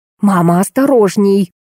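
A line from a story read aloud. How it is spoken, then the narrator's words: Hissing. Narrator (Russian): зашипела Ирина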